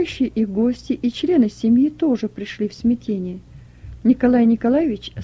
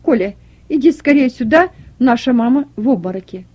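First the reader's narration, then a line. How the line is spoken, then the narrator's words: Loud urgent call. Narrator (Russian): громко позвал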